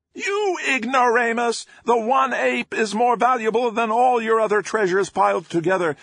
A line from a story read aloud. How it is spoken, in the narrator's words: Maelstrom screeched